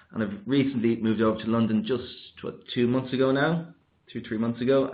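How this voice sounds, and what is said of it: Irish accent. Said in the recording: “I'm Irish, as you can probably tell by my accent.”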